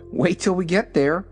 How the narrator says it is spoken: replied Dorothy with a laugh

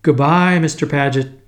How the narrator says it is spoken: I shouted

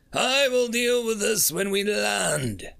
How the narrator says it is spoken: snarled Carmack

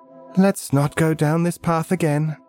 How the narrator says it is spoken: Felicity Heim sighs and says

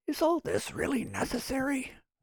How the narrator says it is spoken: whispered Nick

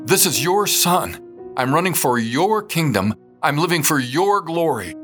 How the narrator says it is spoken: With both hands on my chest at a pounding stride, I repeated the words, this time shouting

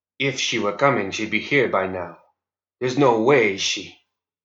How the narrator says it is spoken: Francisco spoke quietly so only his brother would hear him

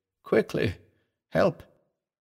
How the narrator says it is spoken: she called weakly

